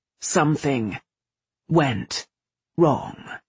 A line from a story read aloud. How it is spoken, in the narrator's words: he said coldly